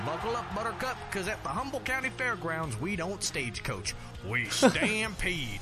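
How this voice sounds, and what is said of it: Forced, satirical country accent. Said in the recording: “a little satire in the forced accent there on the country ... that had to be a put on accent”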